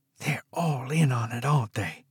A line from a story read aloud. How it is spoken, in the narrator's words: She breathed